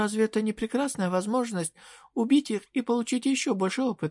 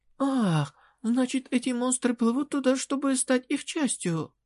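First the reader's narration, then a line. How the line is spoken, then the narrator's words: Sudden exclamation of realization. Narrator (Russian): Внезапно воскликнула Вадинетта, на которую снизошло озарение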